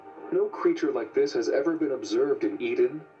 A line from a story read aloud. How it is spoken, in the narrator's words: He exclaimed